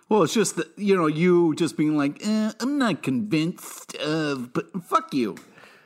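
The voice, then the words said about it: Impersonation of a co-host. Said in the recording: “That was an amazing impersonation of me. I felt I was listening to myself just there”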